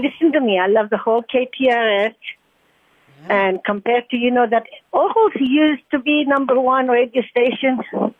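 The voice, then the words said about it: Slight French accent. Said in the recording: “I'm picking up a little bit of an accent. ... French. It's French. ... I haven't lost it. I've been here 50 years, but I still have it. ... beautiful”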